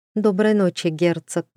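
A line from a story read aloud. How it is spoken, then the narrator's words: Dry farewell. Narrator (Russian): сухо попрощалась девушка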